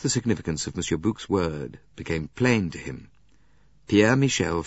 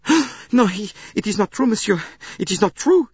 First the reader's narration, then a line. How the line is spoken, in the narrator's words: he cried